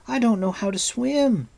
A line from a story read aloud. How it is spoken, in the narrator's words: Taren cried, his teeth chattering violently